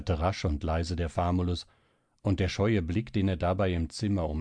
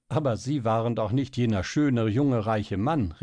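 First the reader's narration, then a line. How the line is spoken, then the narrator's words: Laughing exclamation. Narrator (German): rief Helene, von der Idee erfasst wieder lachend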